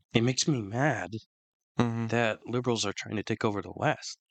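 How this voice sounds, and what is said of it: Hoarse, strained voice. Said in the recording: “you might be able to tell that my voice is a bit different ... I had the worst flu of my life that destroyed my throat ... my throat actually hurts from the damage”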